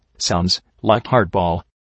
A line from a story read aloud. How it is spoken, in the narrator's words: Norman quietly comment